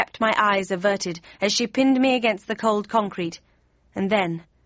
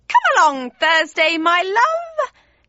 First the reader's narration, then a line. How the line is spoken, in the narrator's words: screeched, the hissing of the snakes almost drowning her out